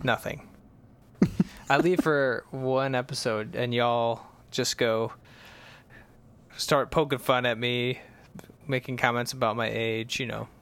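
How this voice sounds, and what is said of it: Fake Southern accent. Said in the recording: “you slipped into faux Southern accent”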